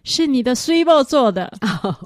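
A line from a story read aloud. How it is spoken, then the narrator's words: Sweeter voice. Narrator (Chinese): 我就用更甜美的声音说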